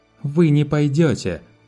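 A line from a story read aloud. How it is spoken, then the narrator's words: Angry snap. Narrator (Russian): зло огрызнулась она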